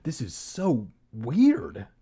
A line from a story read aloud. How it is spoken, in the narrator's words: she exclaimed